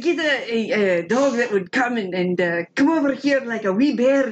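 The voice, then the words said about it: Attempted Scottish accent. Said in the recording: “I can't do the accent. I want to try ... That's pretty good.”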